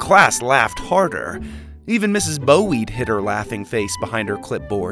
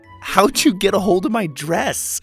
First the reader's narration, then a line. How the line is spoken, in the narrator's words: laughed